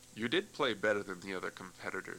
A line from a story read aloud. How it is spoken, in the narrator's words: said the judge